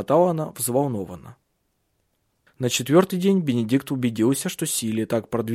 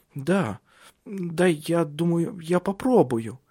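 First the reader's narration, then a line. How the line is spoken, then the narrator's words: Stammering. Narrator (Russian): почти заикаясь, сказала она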